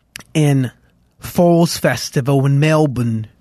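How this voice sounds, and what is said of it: Bad put-on Australian accent. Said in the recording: “which was a horrible Australian accent I just did there.”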